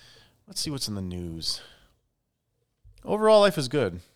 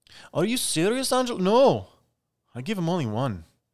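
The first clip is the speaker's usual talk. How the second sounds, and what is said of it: Poor put-on Irish accent. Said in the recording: “That was a horrible Irish accent.”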